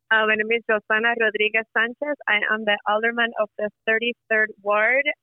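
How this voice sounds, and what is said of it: Thick Puerto Rican accent. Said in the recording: “I am a brown Puerto Rican woman with a very thick accent.”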